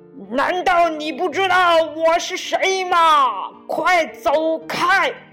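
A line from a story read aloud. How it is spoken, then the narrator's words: Angry roar. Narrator (Chinese): 狮子怒了，大吼起来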